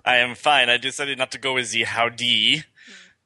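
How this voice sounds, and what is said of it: Put-on snooty French accent. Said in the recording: “go completely opposite and go français ... You snooty French ... I got this accent from my pastry chef.”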